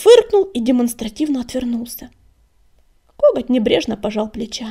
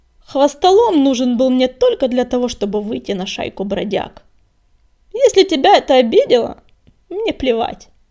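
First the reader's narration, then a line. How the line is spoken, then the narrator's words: Rough bark. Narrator (Russian): грубо рявкнул он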